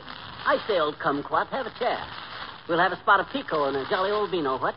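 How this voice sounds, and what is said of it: Exaggerated put-on upper-class British accent. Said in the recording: “this Bond Street brogue ... a British accent”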